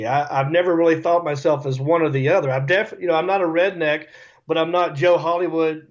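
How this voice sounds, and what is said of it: Rural American accent. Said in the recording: “I know I sound dumb to you people, but this is just my accent. This is just how I talk ... I sound that way”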